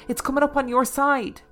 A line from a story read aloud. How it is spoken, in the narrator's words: cried